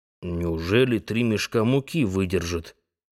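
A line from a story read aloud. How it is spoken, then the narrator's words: Muttered. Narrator (Russian): пробормотал Анти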